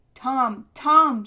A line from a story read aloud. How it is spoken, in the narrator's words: somebody kept shouting